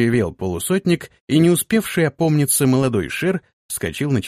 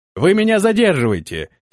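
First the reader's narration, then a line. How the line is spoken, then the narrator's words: Shouted after someone. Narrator (Russian): крикнул ему вслед Антон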